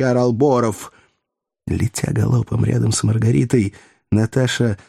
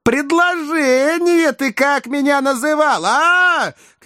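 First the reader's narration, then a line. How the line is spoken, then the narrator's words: Shouting close to ear. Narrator (Russian): кричала она, наклоняясь к уху Борова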